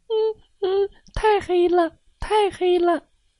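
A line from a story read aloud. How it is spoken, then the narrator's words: Crying. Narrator (Chinese): 小猴淘淘一边哭一边说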